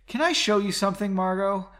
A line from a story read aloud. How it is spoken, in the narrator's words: Leonid asked in a defeated tone